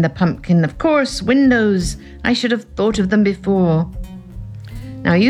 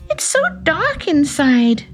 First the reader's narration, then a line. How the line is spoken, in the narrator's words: she cried